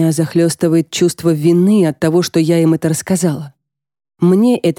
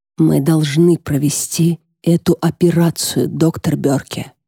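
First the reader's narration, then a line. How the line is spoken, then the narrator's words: Near whisper. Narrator (Russian): говорю я, почти перейдя на шепот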